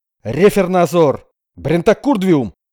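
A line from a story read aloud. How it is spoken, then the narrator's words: Soldiers shouting back. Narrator (Russian): заорали в ответ служивые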